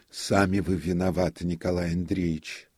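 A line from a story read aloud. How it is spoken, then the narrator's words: Sighing. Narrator (Russian): вздохнул он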